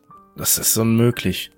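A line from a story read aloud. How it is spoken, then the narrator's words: Shrill stammer. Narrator (German): stammelte schrill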